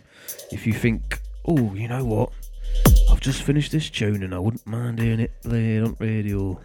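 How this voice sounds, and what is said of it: Drifts into a Bristol accent. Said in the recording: “I did start with my normal accent and then I moved somewhere else ... Moved to Bristol, didn't you? With that accent.”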